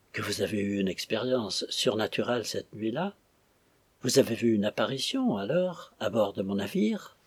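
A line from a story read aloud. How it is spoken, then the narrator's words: Terrified murmured question. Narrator (French): interrogea le capitaine Jones dans un murmure de terreur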